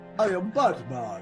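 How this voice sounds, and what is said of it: Put-on Transylvanian accent. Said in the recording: “Batman with a Transylvanian accent”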